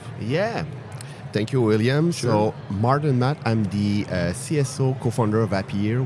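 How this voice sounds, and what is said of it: French accent. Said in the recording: “We have a French accent.”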